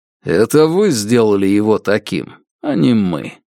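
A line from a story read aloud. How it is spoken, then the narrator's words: Calm. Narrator (Russian): спокойно сказал он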